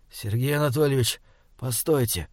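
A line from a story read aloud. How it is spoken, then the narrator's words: Quiet. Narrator (Russian): тихо проговорил Александр Михайлович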